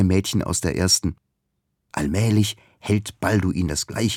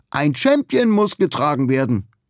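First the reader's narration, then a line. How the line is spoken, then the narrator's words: Calling upward. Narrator (German): ruft Ugur zu ihm hoch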